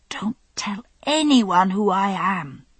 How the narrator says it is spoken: I breathed into her ear

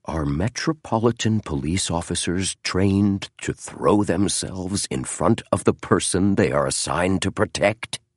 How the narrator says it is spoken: He asked in a low, firm voice

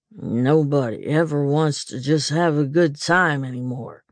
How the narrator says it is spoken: he grumbled

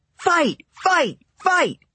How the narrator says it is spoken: Some of them started yelling

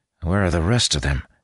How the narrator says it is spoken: he wondered aloud, nerves making his voice tight

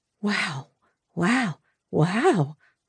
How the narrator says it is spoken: Mom whispered

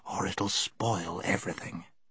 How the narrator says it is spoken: whispered Scrub

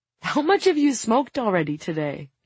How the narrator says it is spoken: Kevin chuckles

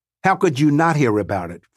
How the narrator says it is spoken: Frost snaps sharply

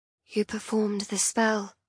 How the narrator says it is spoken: I whisper, blinking back tears as I remember how helpless I'd felt in that moment

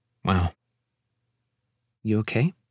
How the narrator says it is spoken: Abby asks quietly

